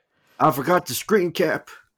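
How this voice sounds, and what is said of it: Put-on Southern American accent. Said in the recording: “You're not doing the right accent. ... it always goes to Southern. ... I was just saying Southern because he was speaking Southern.”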